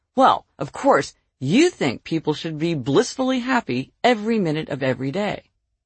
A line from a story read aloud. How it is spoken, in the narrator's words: In an accusatory tone, he said